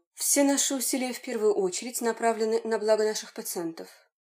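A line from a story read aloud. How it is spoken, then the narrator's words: Even voice. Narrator (Russian): ответил Данилов ровным голосом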